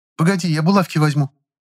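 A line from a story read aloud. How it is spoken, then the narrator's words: Hurried speech. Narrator (Russian): торопливо сказала Нюра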